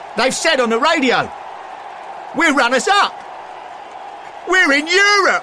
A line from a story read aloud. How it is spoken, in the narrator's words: A nearby fan shouted